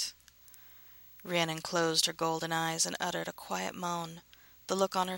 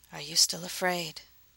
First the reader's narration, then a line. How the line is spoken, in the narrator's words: she whispered